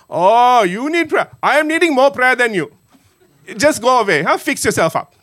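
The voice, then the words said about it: Put-on Sri Lankan accent. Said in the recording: “my Sri Lankan accent”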